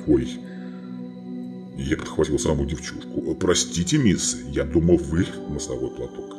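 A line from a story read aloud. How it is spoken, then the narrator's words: Muttered. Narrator (Russian): пробормотав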